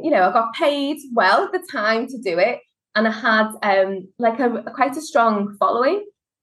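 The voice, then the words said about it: Liverpool Scouse accent. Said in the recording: “as you can tell from the accent, I'm from Liverpool, and Scousers”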